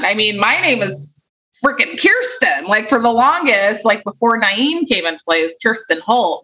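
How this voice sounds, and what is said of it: Slight Valley Girl accent. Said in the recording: “I have a bit of a Valley Girl accent”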